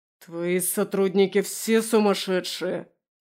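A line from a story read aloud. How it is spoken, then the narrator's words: Growling. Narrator (Russian): прорычал Немиров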